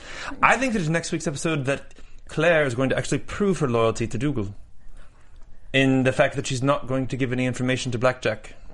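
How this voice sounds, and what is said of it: Weak put-on Scottish accent. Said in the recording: “You have a horrible Scottish. ... I'll do my predictions in the accent, but it's not going to be very good ... That got very English very fast. ... You sound like the Lucky Charms guy.”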